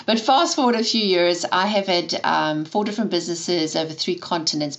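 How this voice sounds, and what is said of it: South African accent. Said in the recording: “I was born and raised in South Africa, hence the funny accent.”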